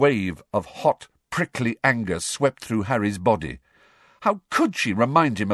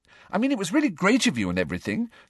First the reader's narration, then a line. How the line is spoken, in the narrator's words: said Hermione quickly, looking positively petrified